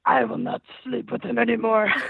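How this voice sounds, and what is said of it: Scary demonic possessed voice. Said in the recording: “the Exorcist voice ... In the voice ... I'm losing my voice anyway ... This is going to be rough”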